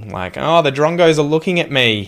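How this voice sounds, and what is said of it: Broad nasal Australian accent. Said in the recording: “a broader quality kind of Australian accent ... focus on making all the different vowels more nasal”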